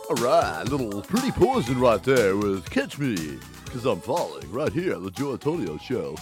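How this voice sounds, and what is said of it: Radio announcer voice. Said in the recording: “This is my radio announcer voice.”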